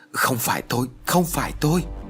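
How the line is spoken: Frightened repeated speech. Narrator (Vietnamese): Thầy Tàu sợ hãi, miệng không ngừng nói

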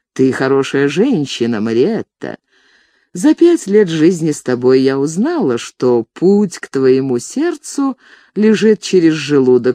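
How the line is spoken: Said dryly. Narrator (Russian): сухо сказала она

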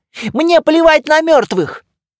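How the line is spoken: Shouting. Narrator (Russian): кричала Шейла

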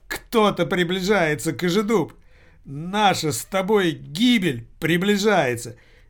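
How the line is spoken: Hysterical, fairly loud speech. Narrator (Russian): Истерично и довольно громко заговорил Пчелкин

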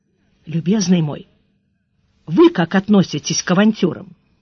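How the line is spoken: Quiet question. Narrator (Russian): тихонько спросил

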